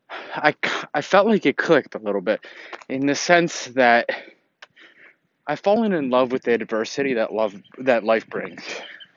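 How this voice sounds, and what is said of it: Out of breath, panting speech. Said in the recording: “as I went out for a run here today, and that's why I'm out of breath”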